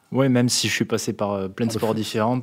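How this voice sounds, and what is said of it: Slight regional French accent. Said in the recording (French): “avec le petit accent qui va bien en plus”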